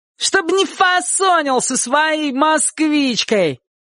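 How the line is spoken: Boy shouting after someone. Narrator (Russian): крикнул вслед один из ребят

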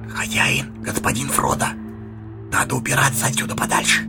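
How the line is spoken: Whisper. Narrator (Russian): Сэмми шепнул

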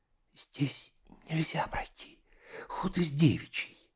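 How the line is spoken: Desperate whisper. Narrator (Russian): сказала шепотом, с выражением истинного отчаяния

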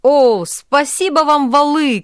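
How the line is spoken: Crowd shouting. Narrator (Russian): кричали запорожцы

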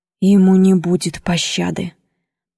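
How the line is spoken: Through gritted teeth. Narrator (Russian): проговорил сквозь зубы

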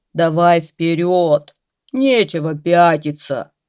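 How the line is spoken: Growling bear. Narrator (Russian): заворчал медведь

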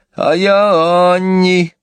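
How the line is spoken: Tearful voice. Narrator (Russian): представилась плаксивым голосом

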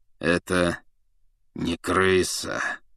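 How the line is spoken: Through gritted teeth. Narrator (Russian): процедил сквозь зубы Сириус Блэк

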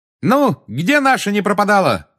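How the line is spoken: Shout. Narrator (Russian): крикнула Тонкс

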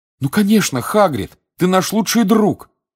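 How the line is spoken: Exclaimed. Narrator (Russian): воскликнул Гарри

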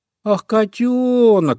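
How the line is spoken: Relieved sigh. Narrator (Russian): облегченно вздохнул зайка Петя

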